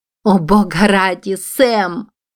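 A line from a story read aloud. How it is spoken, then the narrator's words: Hostile exclamation. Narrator (Russian): воскликнула Уилла, и по ее лицу скользнула несвойственная ей враждебность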